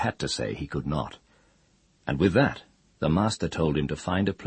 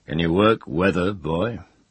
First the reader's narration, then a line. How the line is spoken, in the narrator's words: asked him in a mighty voice